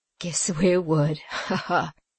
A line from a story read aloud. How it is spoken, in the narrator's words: said the sooty gnome, laughing obsequiously